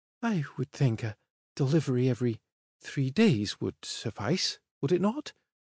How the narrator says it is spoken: She asked, her voice a tad airier than it had been before

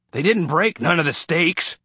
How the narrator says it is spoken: said gruffly

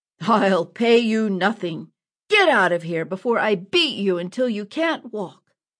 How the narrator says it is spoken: Furious, the eye patch man roared

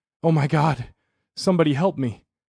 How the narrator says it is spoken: Unable to regain his footing, he gasped and stammered

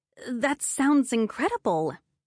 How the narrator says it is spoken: I stammered

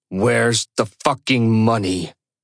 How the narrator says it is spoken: repeats, this time slower, his voice seething with rage

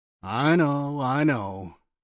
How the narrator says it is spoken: Phil sighed

